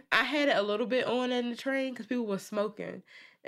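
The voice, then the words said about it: Sick voice from a cold. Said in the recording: “I have a little cold. That's why I sound like ... You sound like yourself, but just sick.”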